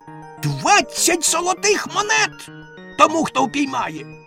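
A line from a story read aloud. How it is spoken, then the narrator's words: Shouted in frustration. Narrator (Ukrainian): бачачи, що це не допомагає, вона закричала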